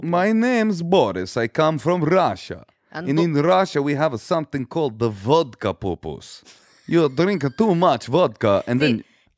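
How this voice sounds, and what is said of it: Put-on Russian accent. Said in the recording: “Can you do Russian? ... Russian accent is more for, this just feels a little more Russian.”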